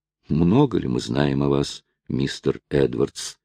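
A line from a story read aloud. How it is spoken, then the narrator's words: Plain. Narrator (Russian): сказала она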